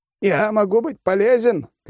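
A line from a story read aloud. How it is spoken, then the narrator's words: Shouted. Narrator (Russian): крикнул Компот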